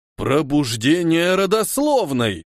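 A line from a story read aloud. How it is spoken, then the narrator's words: Exclamation. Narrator (Russian): воскликнул Хильдефон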